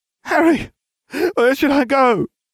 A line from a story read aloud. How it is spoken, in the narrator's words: panting